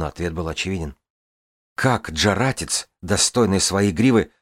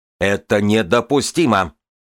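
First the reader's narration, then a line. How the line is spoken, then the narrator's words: Shouted. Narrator (Russian): кричал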